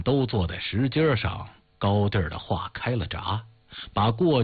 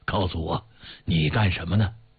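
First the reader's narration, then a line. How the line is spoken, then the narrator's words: Old man speaking. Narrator (Chinese): 老人一边说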